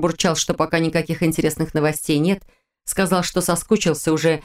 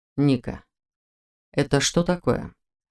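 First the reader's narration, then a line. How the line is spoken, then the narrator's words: Deceptively calm, cold. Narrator (Russian): Обманчиво спокойно и холодно поинтересовался Вейтер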